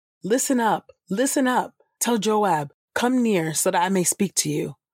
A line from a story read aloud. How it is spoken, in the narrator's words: A wise woman called out